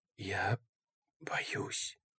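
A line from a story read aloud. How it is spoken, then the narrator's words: Whispered. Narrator (Russian): прошептал он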